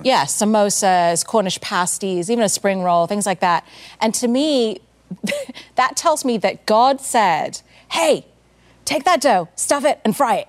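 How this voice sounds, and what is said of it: English accent. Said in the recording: “I've got this English accent”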